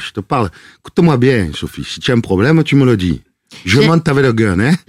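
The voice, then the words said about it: Old-fashioned Marseille accent. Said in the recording (French): “avec l'accent marseillais? ... c'est un peu à l'ancienne, lui. C'est un peu pagnolesque”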